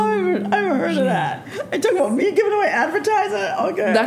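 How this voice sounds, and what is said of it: Usual voice. Nothing is said of it.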